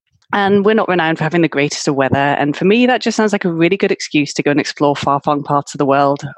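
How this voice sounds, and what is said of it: British accent. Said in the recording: “I'm from the UK, as you can probably guess from my accent.”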